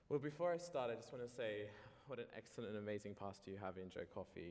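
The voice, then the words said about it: Australian accent. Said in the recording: “from Australia, by the way, so you'll notice his accent is a little bit different.”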